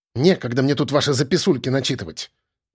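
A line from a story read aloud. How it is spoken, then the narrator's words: Grumbling mutter. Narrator (Russian): пробурчала женщина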